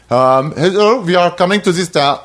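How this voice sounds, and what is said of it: Poor put-on German accent. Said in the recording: “I'm bad at accents. ... Supposed to be German. That wasn't even like...”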